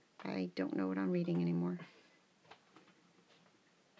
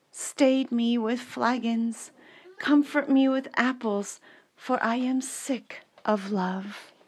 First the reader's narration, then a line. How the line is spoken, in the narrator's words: she cried aloud